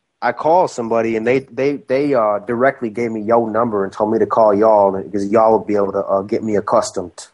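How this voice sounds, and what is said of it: Strong Australian accent. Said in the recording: “you have a very Australian accent.”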